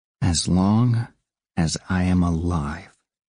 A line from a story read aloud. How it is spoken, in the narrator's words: Pym said very slowly